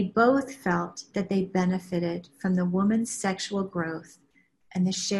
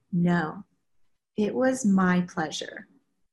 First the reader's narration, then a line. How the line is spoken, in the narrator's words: he immediately and firmly responded